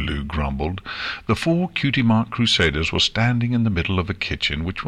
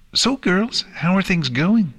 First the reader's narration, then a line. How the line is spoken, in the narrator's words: Pinkie Pie chirped